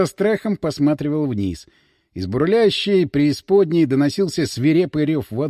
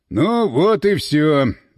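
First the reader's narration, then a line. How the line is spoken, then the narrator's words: Sighing. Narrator (Russian): вздохнул Иван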